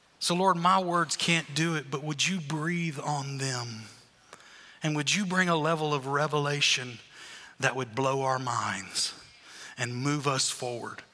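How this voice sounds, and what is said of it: Speaks with an accent. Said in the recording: “I stammer, I stutter, I even have an accent.”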